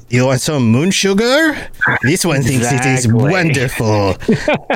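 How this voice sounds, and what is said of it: Faltering put-on accent. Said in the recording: “I don't know where my accent kind of went.”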